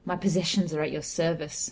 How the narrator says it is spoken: I replied bitterly

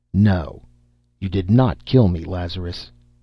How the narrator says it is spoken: he said firmly

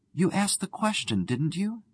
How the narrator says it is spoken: she faltered

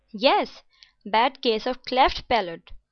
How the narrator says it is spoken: he exclaimed

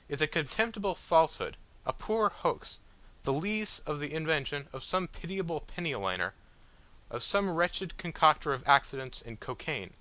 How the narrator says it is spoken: I exclaimed

